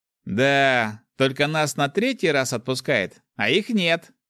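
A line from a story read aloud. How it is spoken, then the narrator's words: Laughing. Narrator (Russian): хохотнул Руди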